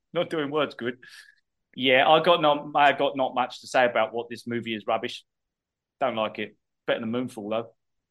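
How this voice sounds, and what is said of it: Put-on Cockney accent. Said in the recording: “You have to say with a proper ... Cockney accent”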